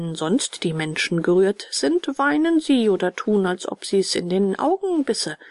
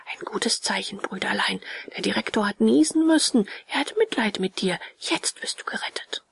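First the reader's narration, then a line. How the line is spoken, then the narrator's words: Cheerful, furtive whisper. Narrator (German): wurde er plötzlich heiter und sagte dem Bengele verstohlen und ganz leise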